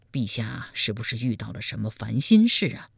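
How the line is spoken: Concerned question. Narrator (Chinese): 赵普关切地问道

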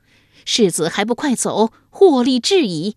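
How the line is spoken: Loud. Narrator (Chinese): 马脸妇人大声说道

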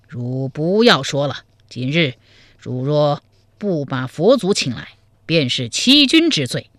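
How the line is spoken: Stern, harsh. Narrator (Chinese): 柴荣厉声说道

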